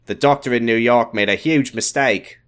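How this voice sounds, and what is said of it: Put-on Australian accent. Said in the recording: “sighed in an Australian accent ... This is great. ... It's outstanding.”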